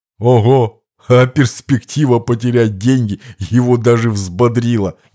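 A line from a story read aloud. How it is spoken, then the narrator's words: Laughing speech. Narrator (Russian): не выдержав, рассмеялся Лакронука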